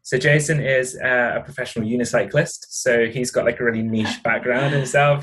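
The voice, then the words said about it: Southern English accent. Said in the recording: “As you can tell from my accent, I'm very English, like the very south of England.”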